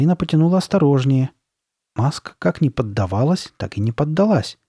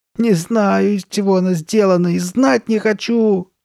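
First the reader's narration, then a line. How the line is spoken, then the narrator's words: Moaning. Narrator (Russian): застонала Карли Бет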